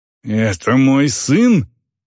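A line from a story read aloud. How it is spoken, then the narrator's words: Growling. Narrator (Russian): прорычала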